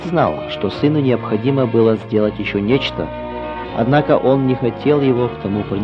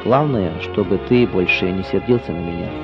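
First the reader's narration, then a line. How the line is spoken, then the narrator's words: Said quietly. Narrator (Russian): он тихо сказал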